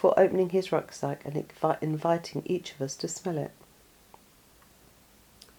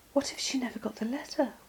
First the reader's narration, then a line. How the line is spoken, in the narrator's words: whispered Josie